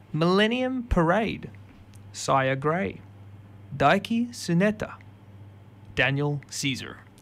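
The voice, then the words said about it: Mimicked accent, sportscaster-style name announcing. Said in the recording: “I don't know why I tried to mimic the accent. ... You did it like you were like a sports caster naming the team.”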